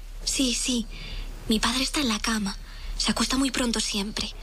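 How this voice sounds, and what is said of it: Whispering. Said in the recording (Spanish): “¿Por qué susurras?”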